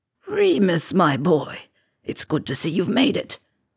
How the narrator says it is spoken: he croaks

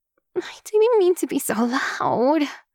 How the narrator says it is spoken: Utako groans

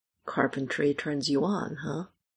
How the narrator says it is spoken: Michael mumbles against the kiss

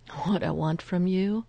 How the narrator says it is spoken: Phil laughs awkwardly

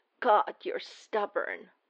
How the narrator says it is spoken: Clint rasps

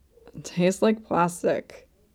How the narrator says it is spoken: A wet sound, like someone smacking their lips, in a somewhat muffled voice, Laios says

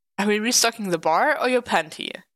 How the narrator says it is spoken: Clint laughs at him

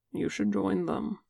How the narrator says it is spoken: Gumpa murmurs

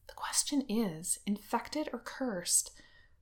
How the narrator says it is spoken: Wen Qing is muttering

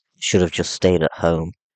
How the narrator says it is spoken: Bucky muttered

